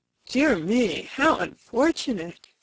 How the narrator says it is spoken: sighed the lovely Rainbow's daughter

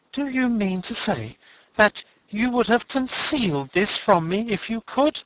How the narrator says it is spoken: He exclaimed

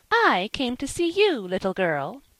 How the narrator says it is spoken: said Miss Jerusha severely

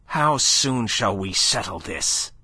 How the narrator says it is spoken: snapped Chabrienne, livid with real fury

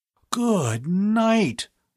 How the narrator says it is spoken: Bud gasped in a stunned voice

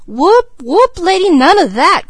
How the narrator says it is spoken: cried Mickey aghast

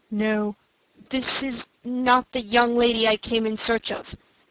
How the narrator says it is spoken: he replied, in a strained voice

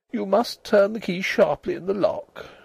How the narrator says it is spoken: she said weakly

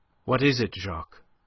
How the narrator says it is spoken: Her voice was steady now that the need for self-control seemed thrust upon her

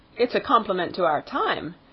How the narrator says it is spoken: exclaimed the young man, with a little laugh in spite of himself

